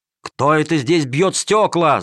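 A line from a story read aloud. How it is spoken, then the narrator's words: Guards shouting. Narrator (Russian): закричали стражники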